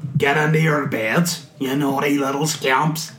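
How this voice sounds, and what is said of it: Put-on modern Northern Irish accent. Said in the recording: “Northern Irish accent ... He was doing a modern one”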